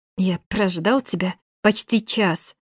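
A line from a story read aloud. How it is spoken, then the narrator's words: Indignant hiss. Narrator (Russian): прошипел брюнет возмущенно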